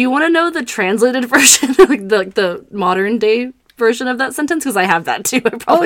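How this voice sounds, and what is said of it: Usual voice. Nothing is said of it.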